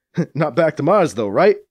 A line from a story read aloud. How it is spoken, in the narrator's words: Drex chuckles at his own joke